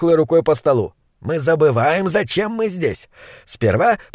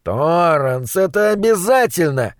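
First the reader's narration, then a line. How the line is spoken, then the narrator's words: Moaning. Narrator (Russian): простонал Уокер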